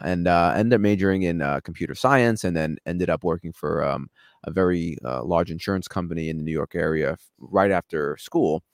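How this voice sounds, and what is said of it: New York accent. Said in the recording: “If you couldn't hear from my accent, I'm a New Yorker”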